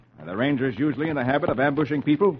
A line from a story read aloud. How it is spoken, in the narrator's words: Hoppy replies sharply